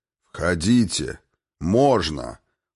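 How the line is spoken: Booming voice. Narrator (Russian): прогремел его голос

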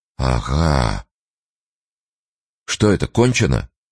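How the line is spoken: Muffled question. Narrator (Russian): глухо спросил Турбин

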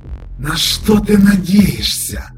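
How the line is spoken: Hissed. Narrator (Russian): прошипел

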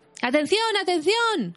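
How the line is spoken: Shouting in chorus. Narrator (Spanish): gritaron todos a coro

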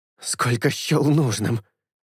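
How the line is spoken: Forced out. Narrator (Russian): выдавил Эйнар

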